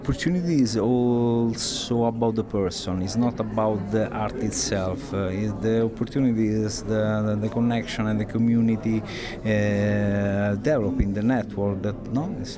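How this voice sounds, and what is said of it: Italian accent. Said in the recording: “I could listen to you all night with your Italian accent.”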